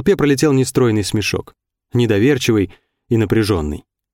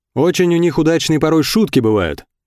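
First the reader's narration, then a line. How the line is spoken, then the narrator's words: Shouted reply. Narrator (Russian): крикнул в ответ Чурашов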